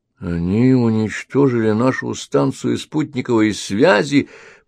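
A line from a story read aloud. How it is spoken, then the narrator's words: Moaning guard. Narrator (Russian): простонал охранник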